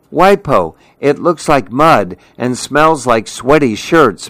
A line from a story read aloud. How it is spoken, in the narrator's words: Mimi cried